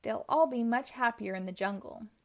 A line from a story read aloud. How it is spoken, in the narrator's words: said Ryder